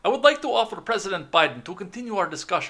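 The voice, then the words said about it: Put-on Russian accent. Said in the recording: “Your Russian accent. ... the Vlad accent”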